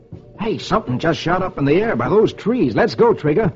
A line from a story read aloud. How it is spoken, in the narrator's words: He exclaims